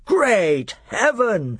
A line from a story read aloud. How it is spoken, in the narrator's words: exclaimed Miraz